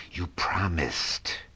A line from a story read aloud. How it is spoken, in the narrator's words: she appeared suddenly at his side like an angry diamond and hissed